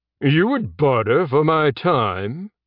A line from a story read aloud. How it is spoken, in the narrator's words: Judge Elcor said with a sneer